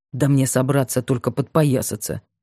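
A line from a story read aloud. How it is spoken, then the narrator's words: Grumbled. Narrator (Russian): проворчал Бабкин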